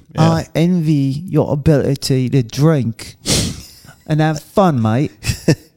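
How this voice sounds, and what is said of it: Put-on British accent. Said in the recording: “It's the wrong type dialect. ... Of British accent. ... That was like Southern London, the North.”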